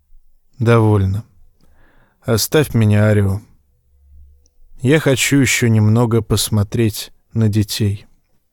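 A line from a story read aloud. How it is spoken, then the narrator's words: Sighing. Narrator (Russian): Вздохнул и сказал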